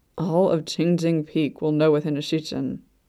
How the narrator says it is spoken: Luo Bingha grumbled

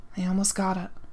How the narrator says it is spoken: whispered

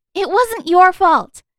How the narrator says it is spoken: Marinette blurted

